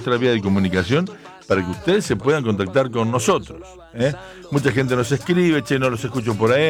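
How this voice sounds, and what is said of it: Usual voice. Nothing is said of it.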